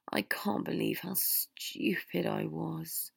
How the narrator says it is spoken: Harry groaned

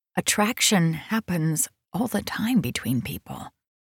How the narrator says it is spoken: she whispered

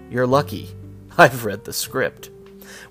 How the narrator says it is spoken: Cushing dryly responded

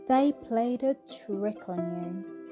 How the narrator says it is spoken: sighed the cricket

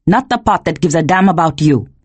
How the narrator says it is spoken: he snapped

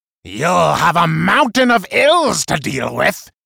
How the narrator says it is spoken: he cried from below, then cackled

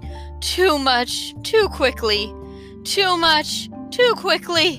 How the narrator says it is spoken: wheezed the uncomfortable bug between gulps

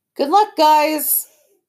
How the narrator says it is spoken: Dad called out

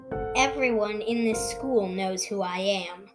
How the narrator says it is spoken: said Wave

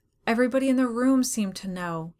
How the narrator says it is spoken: he said, gasping yet from the contest

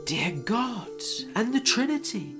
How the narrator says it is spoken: the knight exclaimed

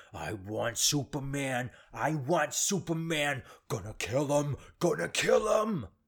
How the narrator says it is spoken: He's dripping in sweat, and he's grunting, and he's repeating

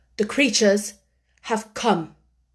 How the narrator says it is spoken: said Colin gravely

